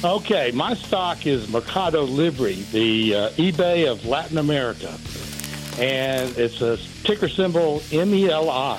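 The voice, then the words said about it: Philadelphia accent. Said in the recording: “I like a Philadelphia accent better than I like anything else.”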